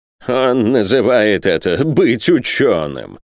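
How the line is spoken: Contemptuous snort. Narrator (Russian): презрительно фыркнул Пальмирен Розет

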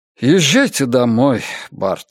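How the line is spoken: Sighing. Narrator (Russian): вздохнул Орднер

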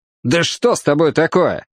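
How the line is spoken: Irritated snap. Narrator (Russian): раздраженно бросил Кин

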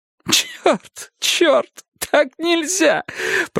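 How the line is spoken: Sobbing voice. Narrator (Russian): проговорил Керн с рыданиями в голосе

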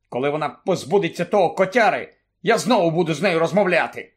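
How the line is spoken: Angry. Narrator (Ukrainian): сердито мовив Рон

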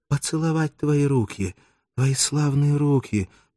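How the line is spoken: Faint, faltering babble. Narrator (Russian): пролепетала она замирающим голосом

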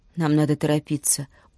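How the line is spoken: Tired. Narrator (Russian): устало сказала Юми

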